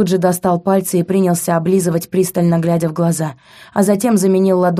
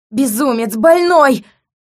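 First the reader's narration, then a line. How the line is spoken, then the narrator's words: Scream. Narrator (Russian): Завопила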